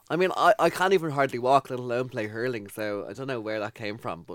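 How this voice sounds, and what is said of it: Irish accent. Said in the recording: “where is that accent from? ... Sutton. ... Out by the airport”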